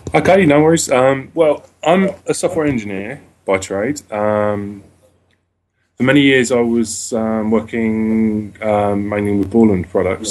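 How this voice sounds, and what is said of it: British accent. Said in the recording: “another Brit ... two thick slices of uh, accent ... that British accent”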